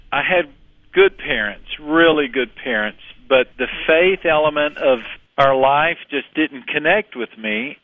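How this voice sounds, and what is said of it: Texan accent. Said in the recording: “You can probably tell by my accent that I was raised in Texas”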